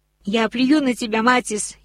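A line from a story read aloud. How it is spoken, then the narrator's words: Shouting. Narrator (Russian): еще раз успела крикнуть Рони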